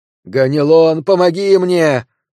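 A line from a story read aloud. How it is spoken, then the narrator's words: Scream. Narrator (Russian): закричала Медея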